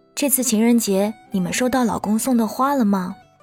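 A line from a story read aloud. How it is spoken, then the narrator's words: Plain. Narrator (Chinese): 我说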